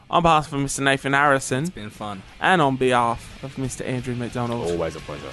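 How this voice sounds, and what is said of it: Put-on British accent. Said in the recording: “I don't know why I've got this British accent”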